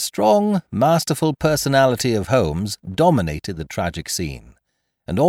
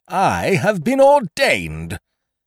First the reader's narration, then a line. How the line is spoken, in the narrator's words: cried the old rascal